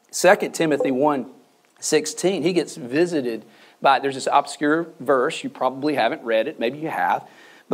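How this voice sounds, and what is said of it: Strained, nearly gone voice. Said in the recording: “my voice is about gone”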